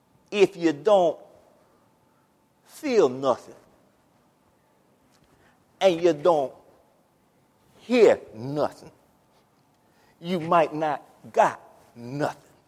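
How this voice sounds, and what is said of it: Louisiana accent impression of a preacher. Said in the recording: “Dr. Jose Rivers, I'm going to modify what he said. I'll do it in my best Louisiana accent.”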